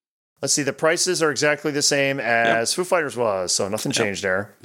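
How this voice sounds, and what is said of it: Usual voice. Nothing is said of it.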